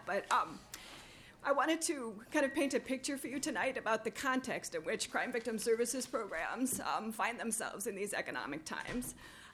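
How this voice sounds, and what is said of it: Troubled, impaired speaking voice. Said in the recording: “Excuse my voice. I'm having a little problem with that”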